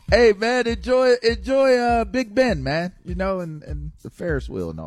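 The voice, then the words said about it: Bad put-on accent. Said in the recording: “That is such a bad accent. It's offensive.”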